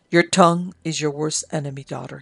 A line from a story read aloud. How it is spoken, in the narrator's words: he said